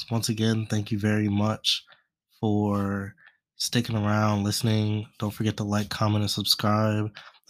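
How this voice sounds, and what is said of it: Congested, stuffy-nosed sick voice. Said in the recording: “my voice sounds a little messed up. I'm a little sick, a little stuffy nose”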